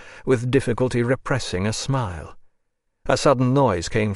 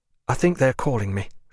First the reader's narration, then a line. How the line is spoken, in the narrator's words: she said, and looked round uneasily